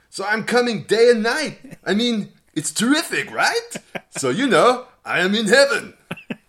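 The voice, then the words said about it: Imitated voice with drifting accent. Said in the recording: “my accent was really, really, all over the was, place ... You went from a, a, a, good attempt at Anani, well, to South African man ... kind of went South African ... at the end, you were like some kind of um, monster from the Muppets ... the Swedish Chef”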